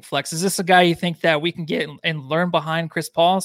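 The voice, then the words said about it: Voice cracks mid-sentence. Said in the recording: “my voice cracked”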